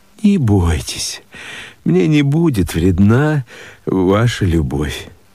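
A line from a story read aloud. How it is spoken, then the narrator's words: Mother speaking. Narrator (Russian): Мать сказала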